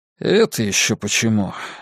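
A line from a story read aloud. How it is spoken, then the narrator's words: Lazy question. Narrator (Russian): лениво спросил я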